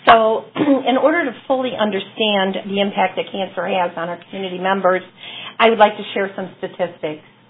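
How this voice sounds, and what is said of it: Scratchy, recovering voice. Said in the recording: “my voice is a little scratchy. I lost it last week, but it's finally coming back.”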